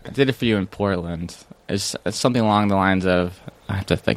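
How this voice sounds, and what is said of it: Usual voice. Nothing is said of it.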